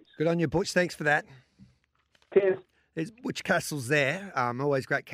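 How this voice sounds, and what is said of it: Hoarse, strained voice, clearing throat. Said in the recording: “losing my voice. ... clearing my throat all the time.”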